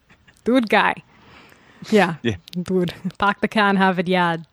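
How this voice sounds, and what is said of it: Put-on Boston accent. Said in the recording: “Do a wicked Boston accent. ... That's the only one I can do, guy.”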